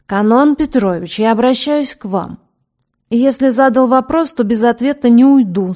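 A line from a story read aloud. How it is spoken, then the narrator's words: Stern. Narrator (Russian): строго сказал доктор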